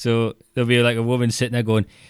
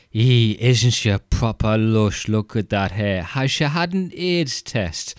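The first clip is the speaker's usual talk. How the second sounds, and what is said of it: Exaggerated Northeast English accent. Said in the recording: “I've lived away from the Northeast for so long, I do find the accent hilarious now when I come back, because it's always just been a caricature to me”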